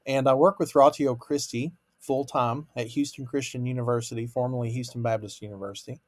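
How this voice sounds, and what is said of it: Kentucky accent. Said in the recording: “Originally from Kentucky, though, that's where the accent comes from.”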